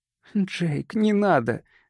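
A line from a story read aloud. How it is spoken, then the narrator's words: Pleading woman. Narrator (Russian): взмолилась Ронда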